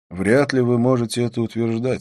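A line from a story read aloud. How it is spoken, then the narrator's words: Calm. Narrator (Russian): спокойно заметил я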